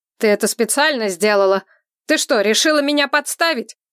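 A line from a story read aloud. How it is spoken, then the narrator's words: Very loud shouting. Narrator (Russian): кричал так, что, кажется, слышала вся улица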